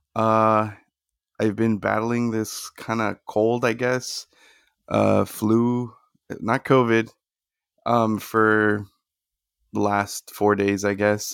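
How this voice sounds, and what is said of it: Slightly off, stuffy-nosed voice. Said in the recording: “my voice sounds a little bit off, if my nose sounds a little bit stuffy”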